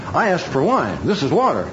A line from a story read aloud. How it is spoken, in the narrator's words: the governor of the feast, and he exclaims